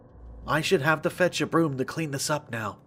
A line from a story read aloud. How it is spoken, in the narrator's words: she muttered under her breath